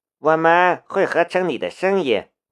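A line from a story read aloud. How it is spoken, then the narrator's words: Calm, flat tone. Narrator (Chinese): 淡淡的道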